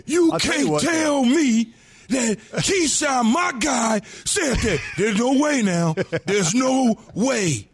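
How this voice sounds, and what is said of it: Imitates another person's voice. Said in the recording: “That's a really good impression, ... That is perfect, actually. ... It's pretty good.”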